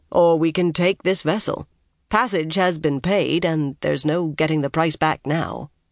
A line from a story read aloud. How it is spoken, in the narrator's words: Tom said dryly